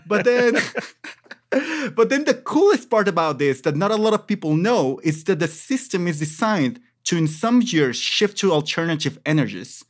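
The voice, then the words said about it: Speaks English with an accent. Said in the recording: “you know my accent.”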